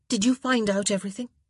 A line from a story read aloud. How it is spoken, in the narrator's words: Daphne asked urgently